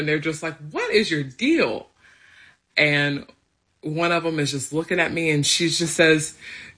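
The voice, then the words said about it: Thick country accent. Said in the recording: “I have this like thick country accent”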